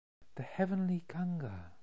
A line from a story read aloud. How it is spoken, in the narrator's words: whispered, with weak but happy voice